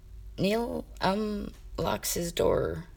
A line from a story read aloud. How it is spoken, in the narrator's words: he muttered, his voice growing quieter with every syllable